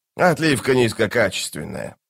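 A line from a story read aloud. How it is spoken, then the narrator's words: Grumbling. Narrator (Russian): проворчал он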